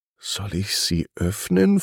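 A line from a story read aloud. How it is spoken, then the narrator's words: Curious whisper to herself. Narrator (German): flüsterte sie sich selber zu, aber war voller Neugier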